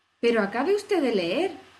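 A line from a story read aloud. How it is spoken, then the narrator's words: Indignant exclamation. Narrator (Spanish): exclamó Alicia indignada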